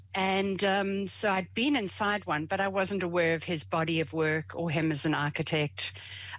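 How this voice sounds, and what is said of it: South African accent. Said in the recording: “I am from South Africa. You might pick up the accent”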